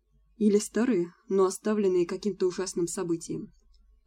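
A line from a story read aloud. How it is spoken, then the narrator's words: Plain. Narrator (Russian): ответил он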